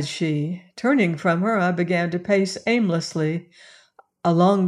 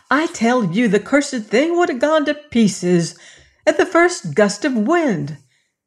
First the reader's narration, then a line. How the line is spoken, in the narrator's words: she cried